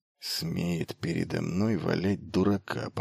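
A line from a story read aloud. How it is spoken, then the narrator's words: Muttering. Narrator (Russian): пробормотал Форхалос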